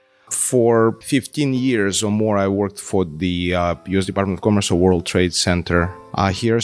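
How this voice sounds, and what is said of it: Russian accent. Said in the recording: “I'm originally from Russia, as you can guess from my accent”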